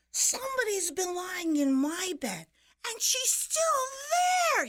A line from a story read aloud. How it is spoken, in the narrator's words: shouted